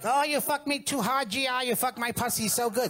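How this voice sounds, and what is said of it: Put-on foreign accent. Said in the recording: “do the accent ... I'll do the accent”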